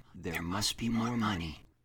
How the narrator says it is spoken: a voice would start whispering

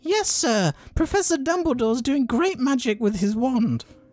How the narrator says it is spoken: he squeaked

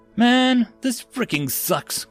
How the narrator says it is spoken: Gomez groaned

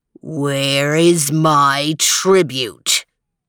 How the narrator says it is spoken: growled the terrible thing

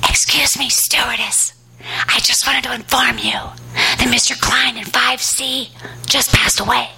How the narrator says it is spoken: a woman ... she whispers to me

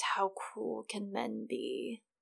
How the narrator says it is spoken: murmured Varys

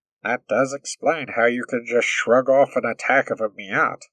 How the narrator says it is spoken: Moore murmured when they had finally found their voice again

